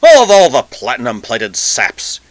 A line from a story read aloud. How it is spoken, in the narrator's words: he snarled suddenly